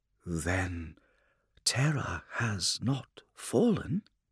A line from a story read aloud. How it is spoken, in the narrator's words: the Blood Angel's words were barely a whisper